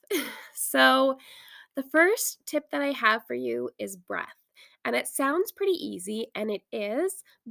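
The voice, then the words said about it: Raspy, hoarse voice. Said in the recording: “my voice is getting really raspy. I think I overdid it on burning essential oils as I'm recording this. So my throat is a little raspy.”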